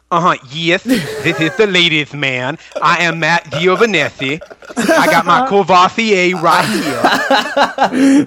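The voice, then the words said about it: Imitates another person's voice. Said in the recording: “That's a very good impression, but I think it's more like Dave Ramsey.”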